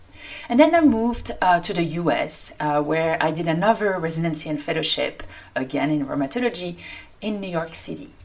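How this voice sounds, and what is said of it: French-accented English. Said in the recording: “like my accent indicates, I come from France”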